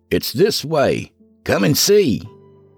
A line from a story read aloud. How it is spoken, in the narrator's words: someone shouted back